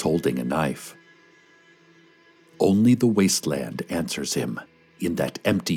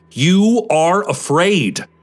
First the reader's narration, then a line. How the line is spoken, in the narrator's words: he shouts